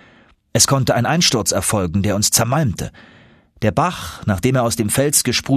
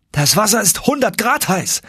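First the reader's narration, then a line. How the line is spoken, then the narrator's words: Calling out. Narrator (German): rief ich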